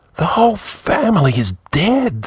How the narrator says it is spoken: the old man whispered

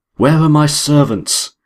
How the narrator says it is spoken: cried the Baron

